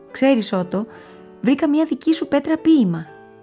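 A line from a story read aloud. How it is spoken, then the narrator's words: Called out. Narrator (Greek): του φώναξε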